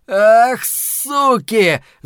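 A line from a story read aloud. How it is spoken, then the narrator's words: Man shouting. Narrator (Russian): закричал мужчина с винтовкой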